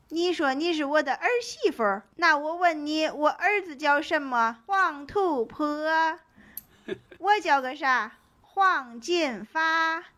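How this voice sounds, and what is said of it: Imitated Shaanxi or Henan accent. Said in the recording (Chinese): “模仿其他口音有有点不太像哈，但是因为蔡明老师和郭达老师他俩的小品好多都是这个地方口音嘛 ... 陕西或者河南”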